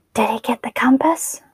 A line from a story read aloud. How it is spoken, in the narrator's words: She whispered